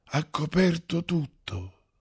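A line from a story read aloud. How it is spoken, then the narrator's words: Desperate whisper. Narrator (Italian): sussurrò poi disperato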